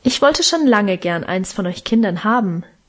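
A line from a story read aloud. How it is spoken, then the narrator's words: Plain. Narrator (German): antwortete sie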